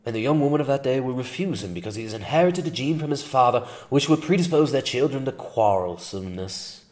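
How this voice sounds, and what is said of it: Evil, seething put-on British accent. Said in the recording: “I'm more comfortable with the evil, seething British accent”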